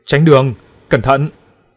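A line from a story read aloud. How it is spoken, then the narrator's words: Yelling. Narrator (Vietnamese): Bản tử vẫn còn gào lên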